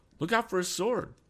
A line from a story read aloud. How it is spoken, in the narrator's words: cried Tom